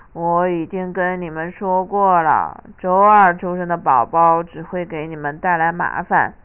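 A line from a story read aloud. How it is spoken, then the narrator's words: Low voice. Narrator (Chinese): 雷拉妈妈低声说道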